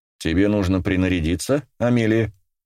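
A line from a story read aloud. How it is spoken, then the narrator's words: Plain. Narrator (Russian): спросил он ее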